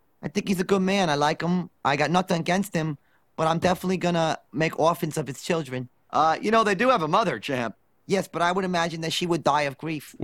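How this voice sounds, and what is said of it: Mike Tyson-like voice, higher pitch. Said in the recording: “a voice that sounds like Mike Tyson ... Dredrick Tatum from The Simpsons ... a little higher pitch with like a bigger lift”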